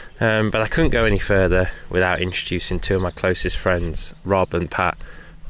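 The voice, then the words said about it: Congested voice from a cold. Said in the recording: “as you can probably tell now, I've got a cold ... A cold has come across me, or man flu”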